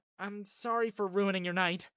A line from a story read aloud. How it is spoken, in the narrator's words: she blurted out